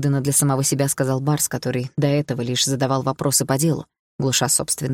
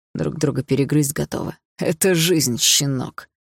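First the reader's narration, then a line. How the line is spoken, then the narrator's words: Hoarse rasping father. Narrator (Russian): прохрипел отец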